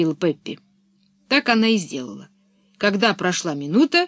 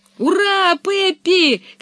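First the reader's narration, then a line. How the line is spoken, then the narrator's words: Children shouting together. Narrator (Russian): кричали Томми и Анника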